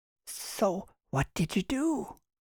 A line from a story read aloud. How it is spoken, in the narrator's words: whispered one man